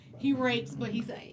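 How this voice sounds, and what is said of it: Imitates another person's voice. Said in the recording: “in my Dave Chappelle voice”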